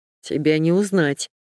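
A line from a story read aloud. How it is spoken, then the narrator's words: Wry snort. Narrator (Russian): хмыкнул он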